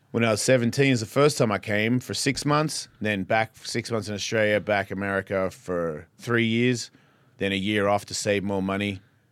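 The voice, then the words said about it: Strong Australian accent. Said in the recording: “your accent's still so strong”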